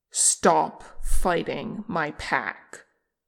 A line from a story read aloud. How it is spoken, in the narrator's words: Che took another snarling breath, and then he commanded